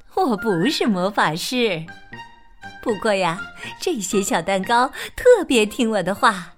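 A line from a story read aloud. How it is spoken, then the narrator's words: Smiling. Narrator (Chinese): 麦德婶婶笑眯眯的说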